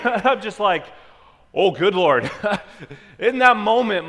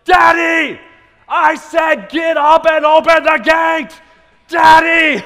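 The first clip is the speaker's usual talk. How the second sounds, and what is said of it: Angry, upset screaming child voice. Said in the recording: “screaming at the top of his lungs, not an excited scream ... like this angry, upset scream, and he's yelling”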